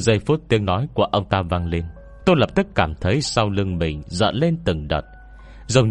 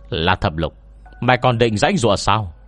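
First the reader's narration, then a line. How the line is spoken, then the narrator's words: Icy shout. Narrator (Vietnamese): Ông ta lạnh băng quát lên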